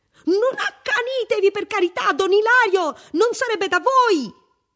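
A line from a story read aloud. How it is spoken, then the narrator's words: Shrill shriek. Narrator (Italian): una enorme figura scura strillava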